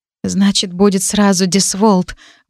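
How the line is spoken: Breathing out words. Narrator (Russian): выдохнула я

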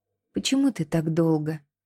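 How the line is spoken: Quiet question. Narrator (Russian): тихо спросила Кинта

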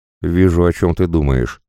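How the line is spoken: Snort. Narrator (Russian): хмыкнул Кречетов

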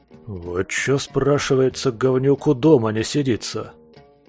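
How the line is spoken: Grumbling. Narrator (Russian): заворчал гусь

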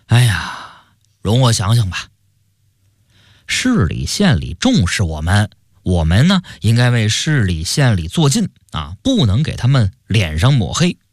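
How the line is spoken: Sighing. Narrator (Chinese): 周大业叹了口气

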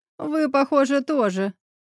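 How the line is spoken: Laughing loudly. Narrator (Russian): захохотала Елена

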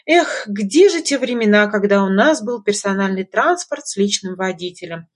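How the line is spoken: Sighing singsong. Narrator (Russian): Вздохнув, пропела Лика

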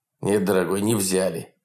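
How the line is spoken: Irritated. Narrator (Russian): раздраженно заговорил Николай Иванович

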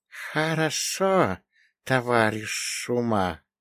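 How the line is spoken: Hissing. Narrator (Russian): прошипела божественная змеюка

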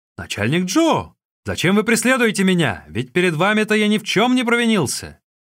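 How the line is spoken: Shouted while running. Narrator (Russian): крикнул ему на бегу

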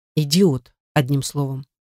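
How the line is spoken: Hesitant, then quiet. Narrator (Russian): Мой собеседник запинается, а после негромко добавляет

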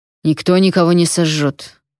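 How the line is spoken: Irritated. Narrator (Russian): раздраженно сказал Вонвальт

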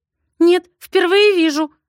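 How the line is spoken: Trembling whisper. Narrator (Russian): шепчет Илоночка дрожащим голосом

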